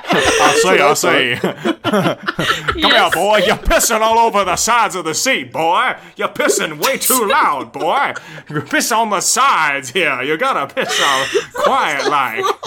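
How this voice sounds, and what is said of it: Southern cartoon rooster character voice. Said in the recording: “It's like plantation owner accent ... Foghorn ... from Looney ... Leghorn. ... Tunes. Foghorn.”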